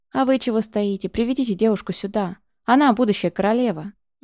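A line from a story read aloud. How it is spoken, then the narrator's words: Growled command. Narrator (Russian): рыкнул он на притихшую толпу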